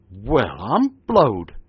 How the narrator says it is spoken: exclaimed he

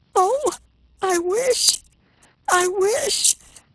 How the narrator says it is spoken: Her sobs stopped her

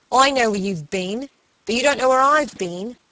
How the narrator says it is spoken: he had exclaimed, greeting her with peals of laughter

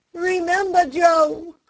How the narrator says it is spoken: cried one

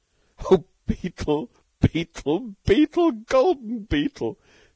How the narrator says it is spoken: sobbed Stalky

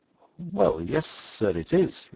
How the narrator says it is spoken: replied the guard, lowering his voice

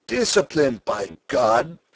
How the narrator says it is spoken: Sturm cried

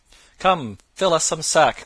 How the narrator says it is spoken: cried Robin

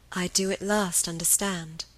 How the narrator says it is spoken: repeated Helen, her voice growing more tender

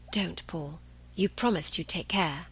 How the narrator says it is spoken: Cahill whispered

